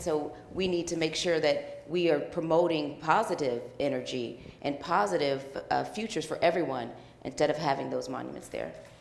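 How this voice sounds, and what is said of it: West Texas accent. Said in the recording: “I thought you were from West Texas for a minute with that accent.”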